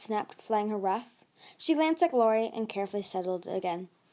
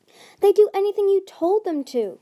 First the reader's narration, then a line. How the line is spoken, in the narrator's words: King Gajoo cried, as a surge of orange outrage rippled down her tail